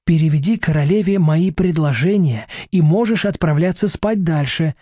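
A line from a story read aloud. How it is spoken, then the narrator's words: Plain. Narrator (Russian): говорит ему Селения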